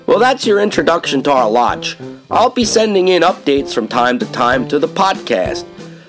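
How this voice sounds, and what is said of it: Mild Pennsylvania Dutch accent. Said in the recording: “Pennsylvania Dutch ... my accent isn't as thick as some of the other brothers”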